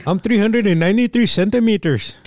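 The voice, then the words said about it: Put-on Punjabi accent. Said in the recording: “What accent was that? ... I got Punjabi.”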